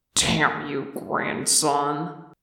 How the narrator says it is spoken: he muttered into his palms

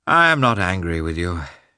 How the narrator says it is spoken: said, just as gloomily

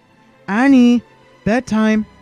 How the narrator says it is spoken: Shmi called out from inside

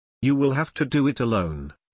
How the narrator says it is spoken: she said

